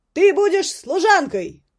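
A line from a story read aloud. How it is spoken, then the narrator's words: Shouted into ear. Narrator (Russian): прокричал ей в ухо гвардеец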